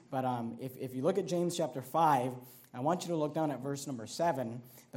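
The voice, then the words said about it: Strained, hoarse voice. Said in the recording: “I feel like I'm losing my voice”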